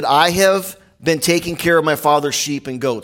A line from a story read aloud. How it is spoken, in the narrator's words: he said